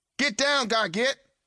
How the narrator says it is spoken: hollered Bria

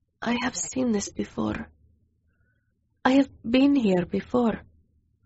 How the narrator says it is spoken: As my vision cleared, I whispered

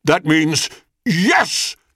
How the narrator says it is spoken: cried Hades

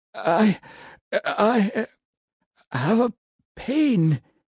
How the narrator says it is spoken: he said in a weak voice

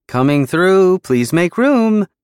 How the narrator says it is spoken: Percy chirped

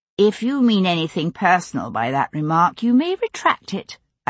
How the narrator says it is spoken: I said coolly

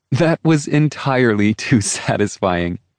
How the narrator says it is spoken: laughed

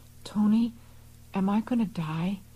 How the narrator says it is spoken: managed to whisper

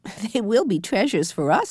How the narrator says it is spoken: answered Jessie, laughing

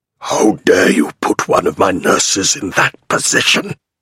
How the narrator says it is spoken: He hisses

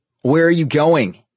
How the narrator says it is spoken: Nero yelled

